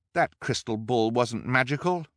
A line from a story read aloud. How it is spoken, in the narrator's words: translated angrily